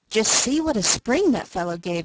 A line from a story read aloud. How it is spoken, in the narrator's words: laughed Uncle Blair